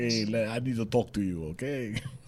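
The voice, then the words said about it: Imitates another person's voice. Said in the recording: “accent ... That was like a Sylvester Stallone ... that was like the guy from the Dos Equis”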